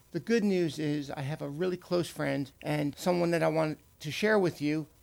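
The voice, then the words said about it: Raspy voice from illness. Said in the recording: “I'm a little bit under the weather and my voice is a bit raspy and it may give out”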